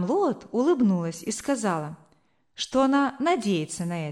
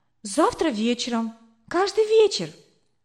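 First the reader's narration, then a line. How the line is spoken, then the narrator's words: Excited reply. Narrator (Russian): взволнованно ответила я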